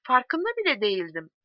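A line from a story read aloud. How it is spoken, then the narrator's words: Plain. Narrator (Turkish): dedi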